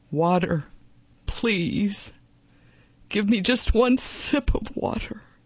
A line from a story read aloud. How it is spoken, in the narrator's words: Finally, his pride broken, Don Sandoval begged